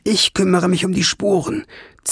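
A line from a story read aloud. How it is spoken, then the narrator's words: Hiss. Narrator (German): zischte sie zu Ben herunter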